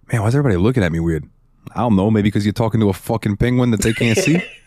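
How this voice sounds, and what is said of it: Penguin character with New York accent. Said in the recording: “I want it to have a New York accent.”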